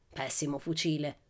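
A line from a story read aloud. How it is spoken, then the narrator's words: Angry gentleman muttering. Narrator (Italian): borbottò arrabbiato il distinto signore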